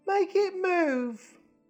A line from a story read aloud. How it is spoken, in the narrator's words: he whined